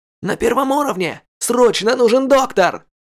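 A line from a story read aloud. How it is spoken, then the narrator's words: Shouted with full force. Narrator (Russian): крикнул со всей силы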